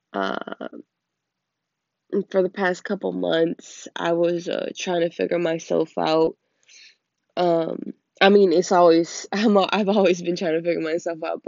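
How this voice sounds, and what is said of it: Deep, raspy sick voice. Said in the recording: “I am currently sick, so please excuse my terrible, deep, raspy voice. And don't mind my cough”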